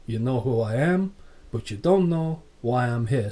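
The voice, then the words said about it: Razor Ramon accent impression. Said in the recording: “Scott Hall saying, he'd be still doing the Razor Ramon accent, going”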